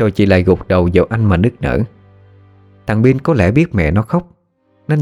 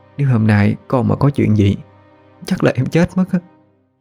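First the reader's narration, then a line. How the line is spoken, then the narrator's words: Trembling voice. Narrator (Vietnamese): giọng nói vẫn run rẩy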